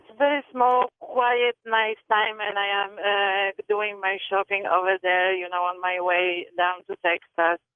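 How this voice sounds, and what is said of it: Slight Eastern European accent. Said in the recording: “I pick up a little accent ... you are Eastern European”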